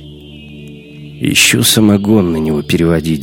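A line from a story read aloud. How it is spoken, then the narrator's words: Grumbling. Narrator (Russian): заворчал Шибанов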